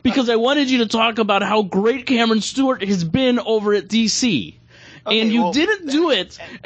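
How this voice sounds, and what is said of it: Yelling in a mock-angry rant. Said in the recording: “I'm yelling ... I'm really mad”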